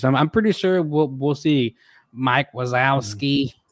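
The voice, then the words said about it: Poor imitation of a cartoon voice. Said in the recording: “That was a horrible impression.”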